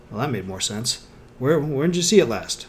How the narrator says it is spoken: frowned for a moment, then sighed

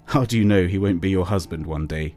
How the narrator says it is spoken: he chuckled

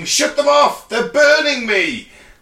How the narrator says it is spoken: vaguely remember shouting

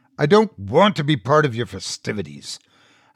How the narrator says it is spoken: I growled

